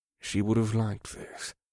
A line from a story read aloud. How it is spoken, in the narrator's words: the Zinkari said in a quiet tone